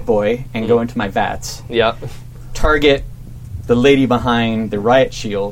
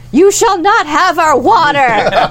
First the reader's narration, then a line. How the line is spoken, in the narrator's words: Just like way dramatically